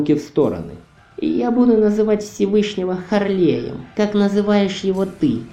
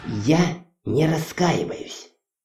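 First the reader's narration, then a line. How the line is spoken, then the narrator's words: Through clenched teeth. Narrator (Russian): Процедила сквозь зубы Хона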